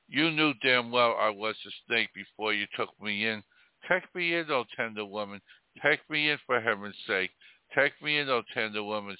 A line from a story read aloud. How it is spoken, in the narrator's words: sighed the snake